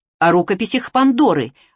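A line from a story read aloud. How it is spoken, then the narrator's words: Curt, sour. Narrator (Russian): отрывисто бросил он, и это имя прозвучало у него кислее, чем лимон во рту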